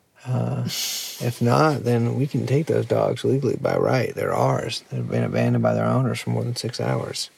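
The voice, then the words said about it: Put-on Southern US accent. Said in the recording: “has suddenly adopted a southern accent”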